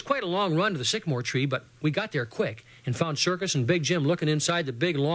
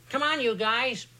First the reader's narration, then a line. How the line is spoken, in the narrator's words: Dragonfly yelled to us from up ahead